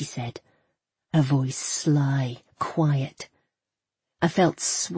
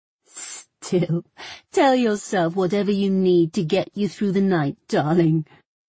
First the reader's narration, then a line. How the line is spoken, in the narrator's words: she said, laughing